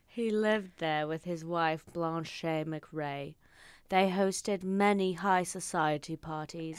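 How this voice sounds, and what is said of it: Reads aloud in a put-on accent. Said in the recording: “you fucking read better with an accent than I've ever heard you read”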